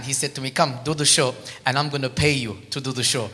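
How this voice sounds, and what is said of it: Armenian accent. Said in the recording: “I was not born there. You can tell by my accent. I was born in Armenia”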